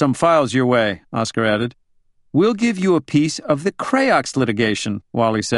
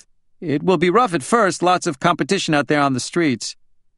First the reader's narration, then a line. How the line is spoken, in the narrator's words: Wally jumped in quickly